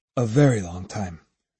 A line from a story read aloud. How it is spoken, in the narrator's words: Musashi said quietly